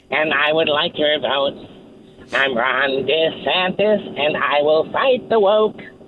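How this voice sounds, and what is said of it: Imitates another person's voice. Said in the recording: “do my Ron voice. It's kind of almost like a Gary Shandling voice.”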